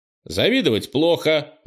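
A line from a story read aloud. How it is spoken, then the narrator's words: Brisk, lively shout. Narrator (Russian): бойко крикнул Кенни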